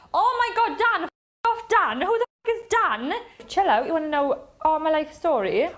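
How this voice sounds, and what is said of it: Strange Welsh accent. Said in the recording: “she's got the strangest Welsh accent I've ever heard”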